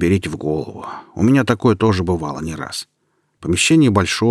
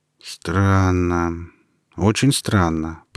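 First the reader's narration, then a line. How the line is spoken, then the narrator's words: Drawled. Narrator (Russian): протянул он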